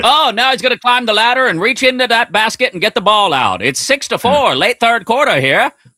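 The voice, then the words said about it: Old-timey radio announcer voice. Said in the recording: “Do the rest of the show in that voice. ... Old-timey radio voice.”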